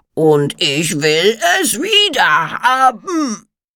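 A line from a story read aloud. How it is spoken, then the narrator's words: Roared. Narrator (German): brüllte er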